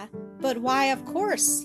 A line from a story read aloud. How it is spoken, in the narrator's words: asked